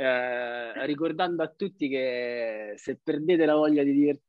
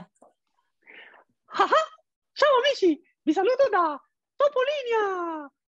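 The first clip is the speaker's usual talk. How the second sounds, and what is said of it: Mickey Mouse cartoon voice. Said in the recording (Italian): “un'imitazione bellissima di Topolino”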